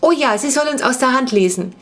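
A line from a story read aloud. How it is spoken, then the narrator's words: Eager excited call. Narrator (German): rief Laura sofort begeistert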